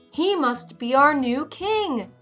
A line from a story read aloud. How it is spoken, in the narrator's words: One called out at last